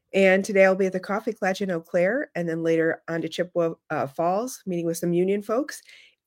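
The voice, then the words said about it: Slightly hoarse voice. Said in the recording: “you can hear I'm a little hoarse because all I do is talk on the phone while we're in the car ... Absolutely, you do.”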